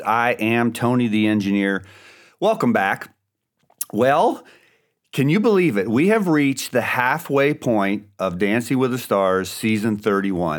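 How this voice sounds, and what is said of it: Slightly congested, throaty voice. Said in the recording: “my voice is a little bit better ... I may have a little clearing of the throat still and a little congestion left”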